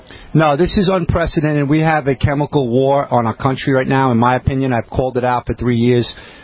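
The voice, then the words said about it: New York accent. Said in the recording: “I'm a New Yorker, so my accent may be a little different than what you used to.”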